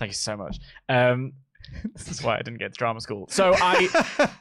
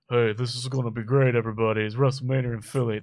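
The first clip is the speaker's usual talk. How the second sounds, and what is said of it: Imitates another person's voice. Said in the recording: “That's my Sly impression. ... Flawless.”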